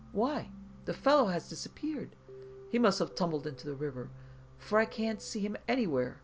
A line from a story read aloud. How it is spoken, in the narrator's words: he exclaimed